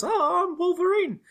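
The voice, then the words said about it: Imitates Wolverine's voice. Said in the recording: “That was my Wolverine impression”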